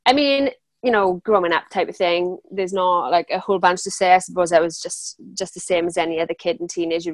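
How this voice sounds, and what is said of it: Welsh accent. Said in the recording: “accents, you probably worked out that um, I'm Welsh, obviously”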